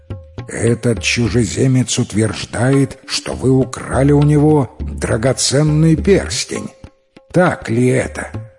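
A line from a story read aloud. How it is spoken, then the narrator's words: Menacing question. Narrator (Russian): он грозно спросил у них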